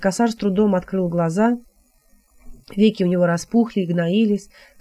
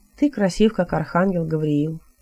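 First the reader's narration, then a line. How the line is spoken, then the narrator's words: Sad statement. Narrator (Russian): грустно констатировал Хилот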